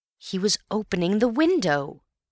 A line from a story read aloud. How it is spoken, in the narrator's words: cried Antony